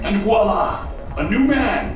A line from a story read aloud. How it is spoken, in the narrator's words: he shouted